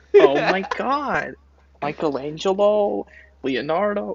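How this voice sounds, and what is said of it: Exaggerated Los Angeles accent. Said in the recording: “she says it like in the most Los Angeles accent ever”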